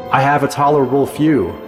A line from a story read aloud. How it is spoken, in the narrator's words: York replied